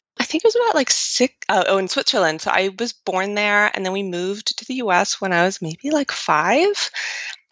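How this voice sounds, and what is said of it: American accent. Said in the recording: “though I might not sound like it, I am actually from Switzerland ... I lived in the U.S. For most of elementary school, which is how I got this accent ... And the accent just stuck around”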